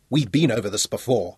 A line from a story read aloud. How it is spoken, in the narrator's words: Johnny snapped